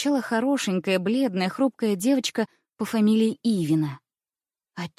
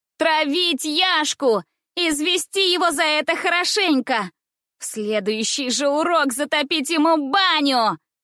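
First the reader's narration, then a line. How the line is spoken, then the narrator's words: Shouting from a corner. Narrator (Russian): Кричали в одном углу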